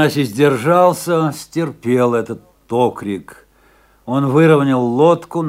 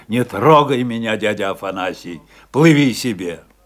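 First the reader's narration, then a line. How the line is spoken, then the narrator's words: Angry, rude. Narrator (Russian): ответил Афанасию сердито и грубо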